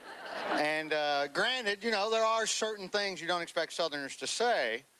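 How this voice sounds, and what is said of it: Southern US accent. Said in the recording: “I'm from Alabama originally, so most people associate the Southern accent”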